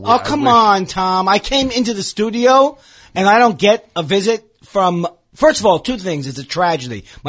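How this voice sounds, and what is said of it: Tired, worn-out voice. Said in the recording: “My voice sounds like I've been up all night”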